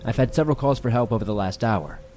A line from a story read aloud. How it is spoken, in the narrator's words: I said